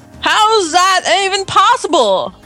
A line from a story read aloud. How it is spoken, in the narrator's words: He yelled as he jumped to his feet